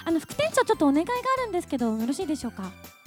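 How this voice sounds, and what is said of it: Imitates a character's voice. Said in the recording (Japanese): “モノマネのくだり”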